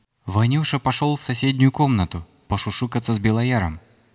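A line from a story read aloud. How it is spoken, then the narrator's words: Plain. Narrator (Russian): ответила мне Вереслава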